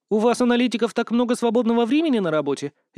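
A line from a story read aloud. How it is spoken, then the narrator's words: Snide interjection. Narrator (Russian): Ехидно ввернула У Юйтун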